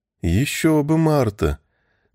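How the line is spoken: Suspiciously meek voice. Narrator (Russian): Подозрительно кротким голосом отозвался Сэм

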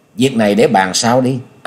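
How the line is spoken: Smiling. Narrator (Vietnamese): Nhậm Xương Bạch mỉm cười rồi nói

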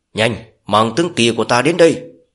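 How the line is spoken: Loud shout. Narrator (Vietnamese): hét lớn

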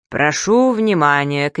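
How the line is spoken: Booming shout. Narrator (Russian): крикнул зычным голосом

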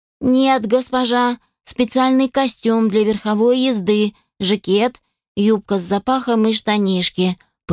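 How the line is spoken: Even, level explanation. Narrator (Russian): пояснила ровным тоном Шерри

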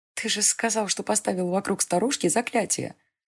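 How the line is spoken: Mocking whisper. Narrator (Russian): Насмешливо прошептала Селена

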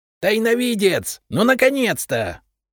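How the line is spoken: Ecstatic yell. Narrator (Russian): восторженно завопил Репей

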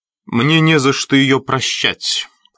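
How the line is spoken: Cold reply. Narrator (Russian): холодно ответил Эдгар

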